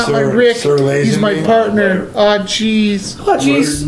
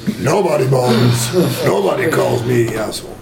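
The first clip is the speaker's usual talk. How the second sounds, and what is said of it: Imitates a movie character's voice. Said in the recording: “my Biff impression”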